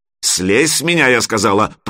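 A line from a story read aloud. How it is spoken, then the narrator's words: Growl. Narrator (Russian): прорычала Алена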